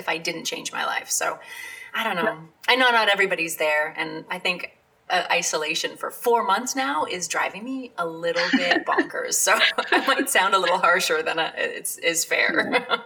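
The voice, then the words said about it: Slightly hoarse voice. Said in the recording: “my throat is a little hoarse”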